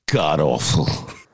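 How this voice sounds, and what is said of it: Simon Cowell impression. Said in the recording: “your best Simon Cowell impression”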